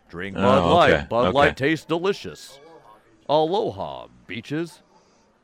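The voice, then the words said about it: Professional radio announcer voice. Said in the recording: “professional radio voice”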